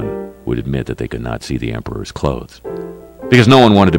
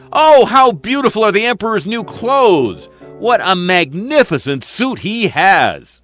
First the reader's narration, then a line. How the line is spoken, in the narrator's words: All the people looking on cried out